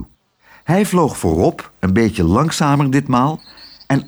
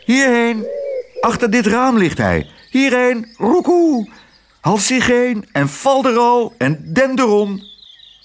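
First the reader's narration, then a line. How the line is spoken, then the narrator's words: Old dove calling out. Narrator (Dutch): riep de oude tortelduif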